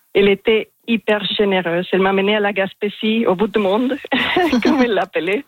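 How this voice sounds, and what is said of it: Strong foreign accent in French. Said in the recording (French): “Elle rigolait de mon français parce que j'ai un accent assez marqué ... Il est magnifique, cet accent”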